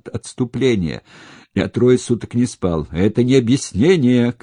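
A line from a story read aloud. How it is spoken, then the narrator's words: Shouting. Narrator (Russian): кричал Крайс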